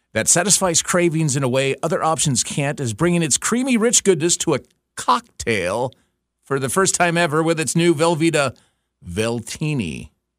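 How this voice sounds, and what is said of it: Announcer-style radio voice. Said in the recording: “This is my radio voice.”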